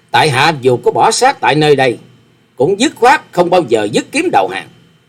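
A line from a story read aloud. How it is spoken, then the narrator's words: Loud defiant laughter. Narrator (Vietnamese): Hoa Sĩ Kiệt ngửa mặt cười to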